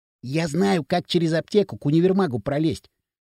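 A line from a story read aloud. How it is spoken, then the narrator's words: Whispered. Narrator (Russian): зашептал хрящ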